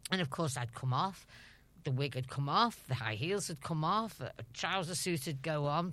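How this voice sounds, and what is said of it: Liverpool Scouse accent. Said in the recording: “my Scouse accent”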